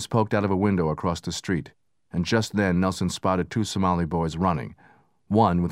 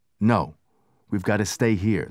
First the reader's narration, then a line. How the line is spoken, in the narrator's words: said the lieutenant